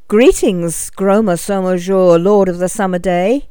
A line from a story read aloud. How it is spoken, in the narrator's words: he called out as bravely as he could